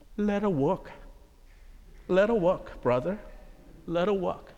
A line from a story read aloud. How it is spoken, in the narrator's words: the deacon said softly